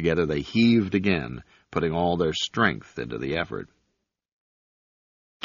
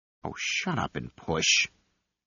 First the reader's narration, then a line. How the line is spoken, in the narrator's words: Fibbin growled